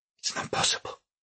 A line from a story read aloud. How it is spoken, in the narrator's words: she whispered